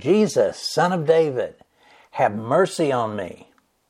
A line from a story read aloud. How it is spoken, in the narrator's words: he, this is the blind man, he cried out saying